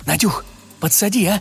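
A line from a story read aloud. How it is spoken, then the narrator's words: Whispered. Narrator (Russian): шепнула она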